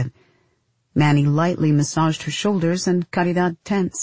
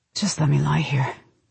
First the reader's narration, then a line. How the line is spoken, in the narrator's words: she whispered